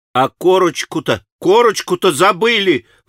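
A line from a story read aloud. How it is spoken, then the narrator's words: Terrified exclamation. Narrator (Russian): вдруг воскликнул он в страшном испуге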